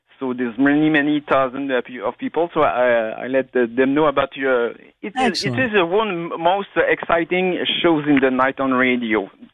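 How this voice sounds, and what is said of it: Quebec French accent in English. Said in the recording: “my French accent. I'm from Quebec.”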